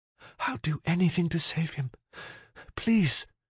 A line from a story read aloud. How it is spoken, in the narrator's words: she whispered without tears